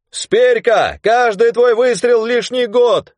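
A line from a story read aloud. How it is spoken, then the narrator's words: Shouting voices. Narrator (Russian): кричали ему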